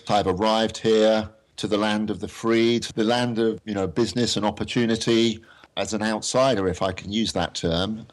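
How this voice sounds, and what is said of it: English accent. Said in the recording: “I guess the accent is a bit of a giveaway ... are you from Australia? ... obviously I'm originally from England, from Oxford.”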